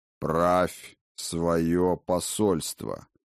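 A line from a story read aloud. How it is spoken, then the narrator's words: Crisp clipped old man. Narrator (Russian): отчеканил старый Хрофт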